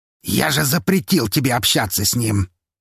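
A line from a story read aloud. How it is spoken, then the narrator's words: Near-growl over phone. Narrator (Russian): едва ли не прорычал в трубку Лазарев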